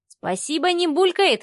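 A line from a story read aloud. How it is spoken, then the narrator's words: Snorting. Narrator (Russian): хмыкнул Лешка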